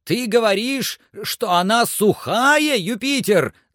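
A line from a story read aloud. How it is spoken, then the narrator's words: Shouting in broken voice. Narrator (Russian): закричал Легран прерывающимся голосом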